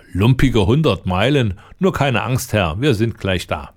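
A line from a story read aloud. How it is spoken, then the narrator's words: Laughing. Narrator (German): lachte der Lange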